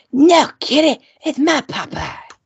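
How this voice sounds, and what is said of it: Imitates another person's voice. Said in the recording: “it wasn't so much an accent, but it was an impersonation ... it's not obviously perfect, but it's there”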